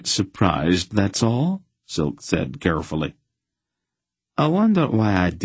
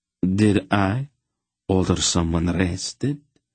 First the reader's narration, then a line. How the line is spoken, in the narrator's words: the count asked, his voice still slurred